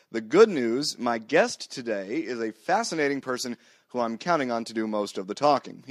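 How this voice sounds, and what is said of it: Hoarse voice from a cold. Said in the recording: “I have a cold and I'm losing my voice, as you can probably tell”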